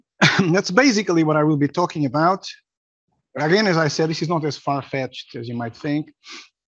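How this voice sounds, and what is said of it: Noticeably unusual accent. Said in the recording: “I know my accent is a bit weird”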